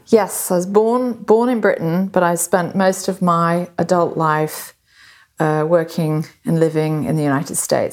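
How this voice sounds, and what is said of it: Slight American twang. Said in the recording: “you have a little twang of an accent. You're American, aren't you?”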